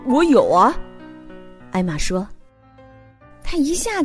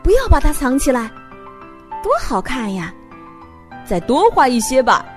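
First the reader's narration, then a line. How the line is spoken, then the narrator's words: Children shouting. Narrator (Chinese): 孩子们大叫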